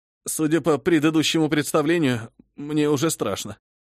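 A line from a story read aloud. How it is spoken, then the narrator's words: Uneasy, nervous. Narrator (Russian): поежился лысый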